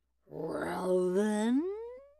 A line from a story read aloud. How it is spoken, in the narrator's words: snarled the wolf